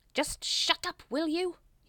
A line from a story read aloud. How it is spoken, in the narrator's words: snapped